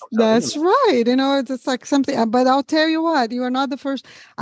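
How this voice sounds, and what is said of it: Brazilian accent mixed with Southern twang. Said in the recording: “the mixture between your American accent and your Brazilian accent ... I'm a Brazilian with a southern twang now”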